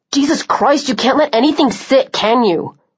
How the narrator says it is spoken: She snapped

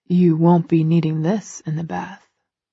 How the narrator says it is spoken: he whispers

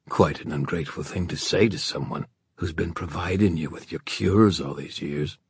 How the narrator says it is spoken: Malcolm murmured

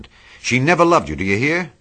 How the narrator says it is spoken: He cried

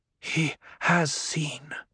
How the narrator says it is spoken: Jessica whispered

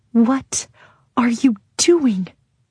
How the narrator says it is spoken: Taryn hisses at me

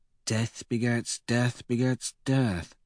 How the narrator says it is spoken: he murmurs

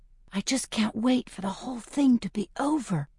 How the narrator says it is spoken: I whisper

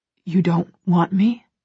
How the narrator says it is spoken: He whispers

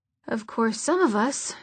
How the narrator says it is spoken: Jordan muttered

